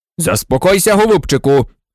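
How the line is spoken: Bark. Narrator (Ukrainian): гаркнув Фадж

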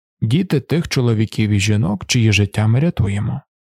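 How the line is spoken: Level even voice. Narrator (Ukrainian): рівним голосом проказав Лірін

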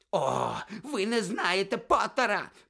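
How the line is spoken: Continued shrieking. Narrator (Ukrainian): продовжував верещати Снейп

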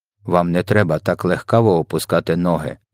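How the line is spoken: Calm. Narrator (Ukrainian): спокійно зреагував на це ВДВ

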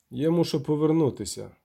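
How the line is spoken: Plain. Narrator (Ukrainian): нарешті сказав він

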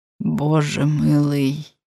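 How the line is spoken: Quiet. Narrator (Ukrainian): Тихо мовив він

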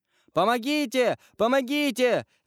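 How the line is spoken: Scream. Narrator (Russian): закричала она

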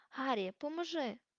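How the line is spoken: Hoarse, strained shout. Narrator (Ukrainian): хрипко вигукнув Хегріт, бо знову застряг у дверях

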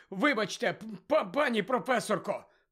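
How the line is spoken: Hoarse wheeze. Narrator (Ukrainian): прохрипів він

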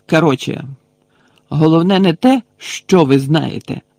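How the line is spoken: Loud talking. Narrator (Ukrainian): голосно казав він Кребові і Гойлу

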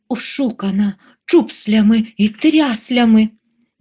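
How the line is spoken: Sobbing. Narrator (Ukrainian): Він схлипнув

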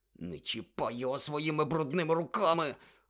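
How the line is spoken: Barely audible hiss. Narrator (Ukrainian): ледь чутно прошипів Гаррі

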